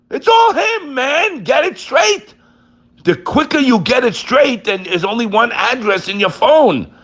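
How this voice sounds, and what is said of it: Raised, loud voice. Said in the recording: “raised my voice”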